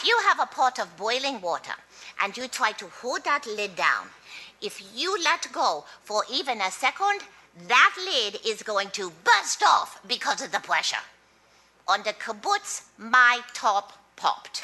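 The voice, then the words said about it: Mixed Israeli, French, German accent. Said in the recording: “That's pretty good. ... That was a really, really hard accent, because it's Israeli, it's French, and ... it's German. ... I can hear that.”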